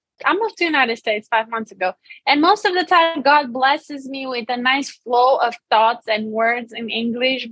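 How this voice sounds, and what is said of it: Romanian accent in English. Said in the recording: “I'm Romanian. That's why I have an accent.”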